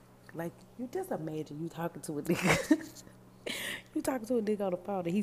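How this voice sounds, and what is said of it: Usual voice. Nothing is said of it.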